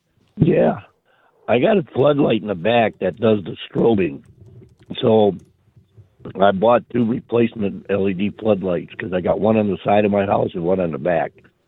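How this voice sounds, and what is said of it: Hoarse, congested voice. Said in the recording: “I got a bad cold. Sorry for the voice.”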